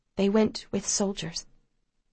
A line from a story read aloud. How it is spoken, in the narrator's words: the woman says quietly